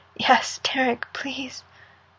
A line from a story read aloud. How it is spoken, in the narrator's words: It takes him 3 deep, gasping breaths before he can say